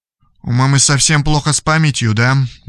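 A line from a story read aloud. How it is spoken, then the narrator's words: Sad question. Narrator (Russian): грустно спросил Радислав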